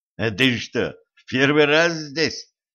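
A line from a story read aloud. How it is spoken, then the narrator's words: Smirking grunt. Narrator (Russian): хмыкнул водитель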